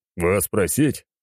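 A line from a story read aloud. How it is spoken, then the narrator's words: Short chuckle. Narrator (Russian): хохотнул я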